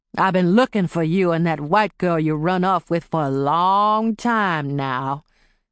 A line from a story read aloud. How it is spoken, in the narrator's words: Clay drawled